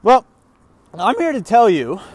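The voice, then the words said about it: Voice cracks mid-sentence. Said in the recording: “my voice cracked”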